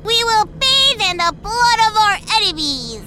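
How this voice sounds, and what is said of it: Happy little girl voice. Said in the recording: “In a happy little girl voice”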